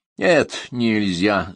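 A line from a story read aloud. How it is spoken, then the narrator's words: Angry reply. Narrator (Russian): зло ответил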